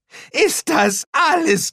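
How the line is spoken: Shrieking. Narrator (German): kreischte Shao

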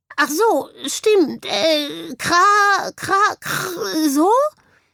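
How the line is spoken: Bird croaking. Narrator (German): krächzte daraufhin der Vogel

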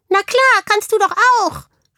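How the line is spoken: Hamster calling from satchel. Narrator (German): rief der Hamster aus dem Ranzen heraus

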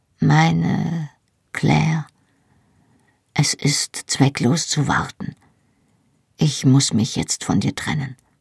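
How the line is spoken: Quiet. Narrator (German): sagte er leise

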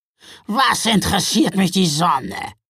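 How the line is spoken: Grunted. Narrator (German): grunzte Gaia

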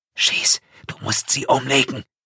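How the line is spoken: Whisper in ear. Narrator (German): flüstert ihm ins Ohr

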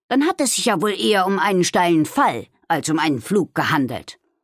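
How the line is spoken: Growled. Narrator (German): knurrte er

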